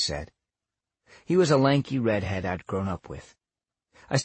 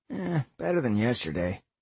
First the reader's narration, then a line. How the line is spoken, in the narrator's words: Roy said with a grunt